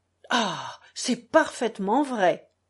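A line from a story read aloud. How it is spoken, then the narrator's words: Exclamation. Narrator (French): s'exclama Alyosha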